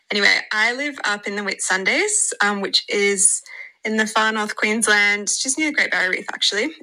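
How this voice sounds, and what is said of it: Australian accent. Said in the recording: “I'm from Australia. If you can't already tell by my accent”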